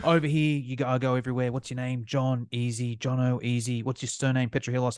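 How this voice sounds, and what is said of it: Australian accent. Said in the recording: “as you can probably tell by my accent, I'm from Australia.”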